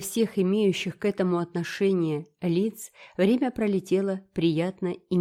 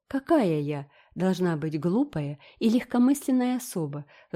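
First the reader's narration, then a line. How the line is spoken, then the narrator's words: Sigh. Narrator (Russian): вздохнула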